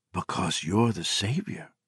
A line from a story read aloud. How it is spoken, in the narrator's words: Becca whispered